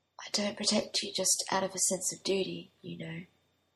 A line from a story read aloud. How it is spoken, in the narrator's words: Merlin whispered